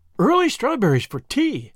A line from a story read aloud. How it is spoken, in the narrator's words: exclaimed Miss Lavender